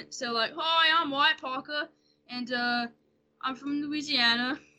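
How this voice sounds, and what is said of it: Put-on British-Australian accent. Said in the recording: “used to be able to do like a British slash Australian accent ... Very, very good.”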